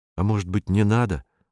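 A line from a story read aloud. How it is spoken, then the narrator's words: Timid suggestion. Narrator (Russian): робко предложил Вадим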